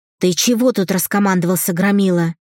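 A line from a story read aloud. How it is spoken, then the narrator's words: Barking, angry. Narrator (Russian): рявкнула свекровь на Марка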